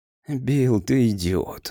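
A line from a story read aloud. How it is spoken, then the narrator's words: Weary objection. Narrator (Russian): устало возразил Грейс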